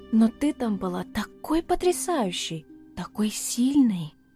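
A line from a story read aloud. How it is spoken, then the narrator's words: Whispered. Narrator (Russian): прошептала Альба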